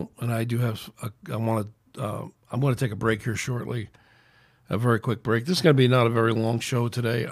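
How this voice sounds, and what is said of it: Strained, hoarse voice. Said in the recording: “My voice is just in a bad place ... I don't think I can go on too much longer with my throat the way it is”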